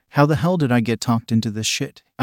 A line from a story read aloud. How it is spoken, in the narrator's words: I sighed